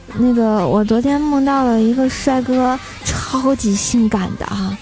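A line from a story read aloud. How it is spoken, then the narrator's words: Embarrassed, low voice. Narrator (Chinese): 我顿时羞愧难当啊，然后我就低声的说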